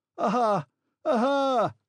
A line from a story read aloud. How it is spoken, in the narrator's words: shouted with a loud laugh